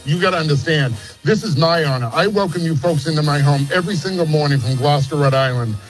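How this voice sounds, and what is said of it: Regional New England accent. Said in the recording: “Your accent is making me so happy.”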